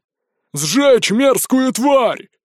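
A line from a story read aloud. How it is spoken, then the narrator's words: Booming shout from crowd. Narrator (Russian): зычно крикнул кто-то в толпе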